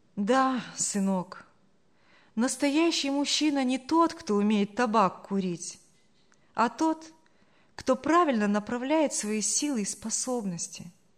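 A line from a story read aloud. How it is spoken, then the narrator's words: Sad voice. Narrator (Russian): грустно проговорила Саша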